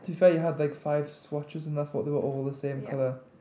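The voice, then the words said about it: Husky voice from a cold. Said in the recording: “I'm bummed up with cold as well, so that's why I sound so husky. ... Husky.”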